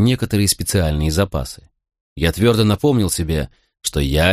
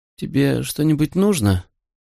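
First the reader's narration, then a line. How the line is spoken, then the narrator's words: Sleepy question. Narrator (Russian): сонно спросила она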